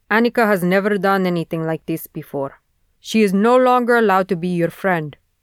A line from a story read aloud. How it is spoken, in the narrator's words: her father says with a heavy accent